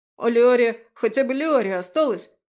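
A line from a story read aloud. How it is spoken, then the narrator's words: Loud wailing. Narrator (Russian): вопил Фрей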